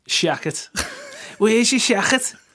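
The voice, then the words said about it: Put-on Liverpool accent. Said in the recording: “That sounds brilliant in a Liverpool accent.”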